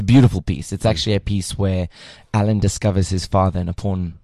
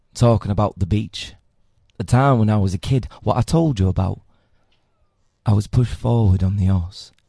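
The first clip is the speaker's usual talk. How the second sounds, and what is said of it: Southern Yorkshire accent. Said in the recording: “I can give you my accent ... it's basically a Southern Yorkshire accent, which is quite fun.”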